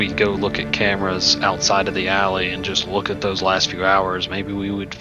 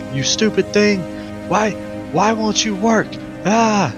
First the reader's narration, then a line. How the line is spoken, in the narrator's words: he's just like yelling at this thing